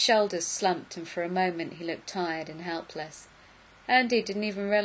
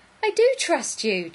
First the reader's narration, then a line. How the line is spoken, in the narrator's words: Jack said desperately